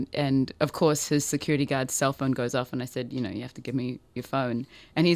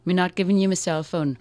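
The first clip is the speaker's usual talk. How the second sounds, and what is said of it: Poor imitation of a Jamaican accent. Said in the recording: “not in that accent, I'm doing it really badly ... they called me in Jamaica”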